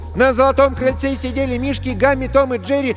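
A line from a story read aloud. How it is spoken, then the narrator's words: Loud shouted counting rhyme. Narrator (Russian): Во все горло кричала считалочку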